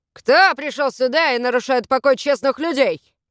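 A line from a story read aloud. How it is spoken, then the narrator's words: Barked. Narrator (Russian): рявкнул Воллер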